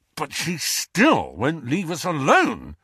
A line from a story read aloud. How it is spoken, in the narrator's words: snarled Ron